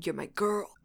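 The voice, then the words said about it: Imitates a character's voice. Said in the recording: “my Jasper impression”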